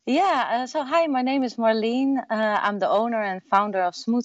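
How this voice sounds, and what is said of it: Dutch accent. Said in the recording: “originally from the Netherlands ... people would obviously hear your accent and know that you're not from Austin, Texas.”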